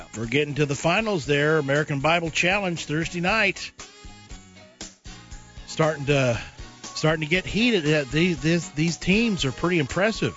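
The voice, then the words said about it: Worn-out, nearly lost voice. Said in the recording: “my voice is just about, I don't know if you can hear it, but my voice is just about gone”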